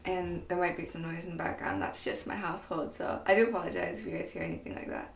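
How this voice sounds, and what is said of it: Groggy early-morning voice. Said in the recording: “It's super early in the morning, so I do apologize that my voice sounds a little groggy today.”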